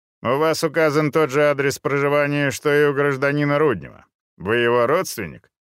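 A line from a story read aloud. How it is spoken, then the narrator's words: Dry questioning. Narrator (Russian): продолжал сухо интересоваться Балыба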